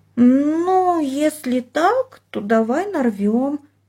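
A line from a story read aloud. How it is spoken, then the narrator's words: Hesitant drawl. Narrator (Russian): неуверенно протянула она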